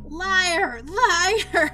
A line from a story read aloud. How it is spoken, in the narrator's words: she screaming